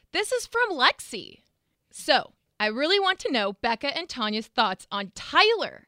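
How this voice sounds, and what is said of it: Imitates another person's voice. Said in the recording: “my best Mark impression.”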